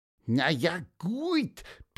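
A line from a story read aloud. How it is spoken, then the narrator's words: Squeaky piping voice. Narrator (German): piepste Pieper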